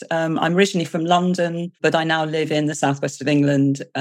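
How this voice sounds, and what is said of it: British accent. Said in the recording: “I am British, as you can hear from my accent.”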